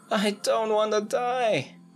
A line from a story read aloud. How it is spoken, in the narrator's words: Ignoring the pain of her hurt ankle completely, Angelina with all her strength screams